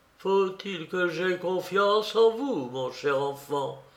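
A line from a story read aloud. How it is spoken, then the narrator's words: Sighing. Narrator (French): soupirait-il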